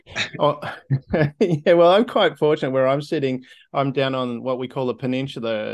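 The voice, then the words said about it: Australian accent. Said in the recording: “from down under. And if you couldn't pick up on the accent”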